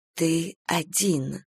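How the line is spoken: Whispered. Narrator (Russian): шептали губы Пименовой

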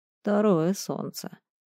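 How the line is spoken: Abbot muttering. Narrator (Russian): пробормотал настоятель

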